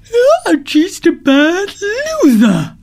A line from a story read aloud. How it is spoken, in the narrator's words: said the tortoise with a yawn